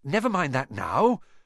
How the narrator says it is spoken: said Harry, breathlessly

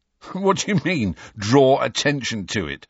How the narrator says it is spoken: said Ron, half laughing

